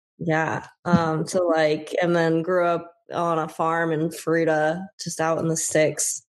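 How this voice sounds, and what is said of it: Rural American accent. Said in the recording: “Texas somewhere, I can tell... You just developed the Texas accent... It's not Texas... I feel like you grow up anywhere rural enough, like people have accents”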